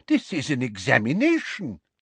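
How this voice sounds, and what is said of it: Scandalized, indignant tone. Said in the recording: “in a scandalized voice”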